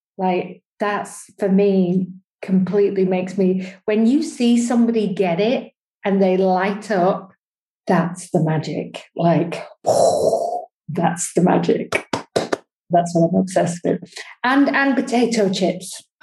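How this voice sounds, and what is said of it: British English accent. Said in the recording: “is living in the UK, if you can't tell by her gorgeous accent.”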